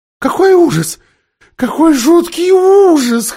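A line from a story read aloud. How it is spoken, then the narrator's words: Whimpering. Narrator (Russian): хныкала Лазарелина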